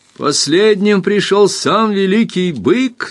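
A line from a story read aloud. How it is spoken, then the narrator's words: Laughing shout. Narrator (Russian): закричал Эрленд, смеясь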